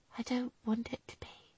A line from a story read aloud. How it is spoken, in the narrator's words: she whispered